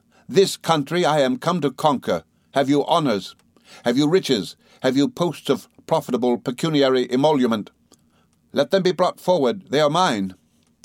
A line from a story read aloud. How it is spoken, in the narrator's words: Micawber firmly say